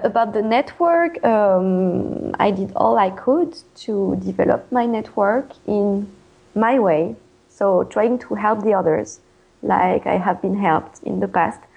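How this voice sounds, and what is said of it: French accent in English. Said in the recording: “I won't lose my French accent.”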